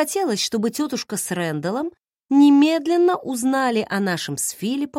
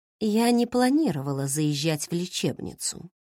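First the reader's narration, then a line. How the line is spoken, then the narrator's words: Calm announcement. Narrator (Russian): спокойно объявила я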